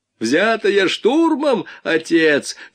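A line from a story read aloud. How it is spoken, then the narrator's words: Yelling. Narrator (Russian): заорал Вайнгартен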